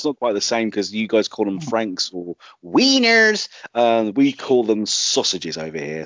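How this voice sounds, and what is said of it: English accent. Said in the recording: “especially in an English accent ... I'm sticking to my Britishness”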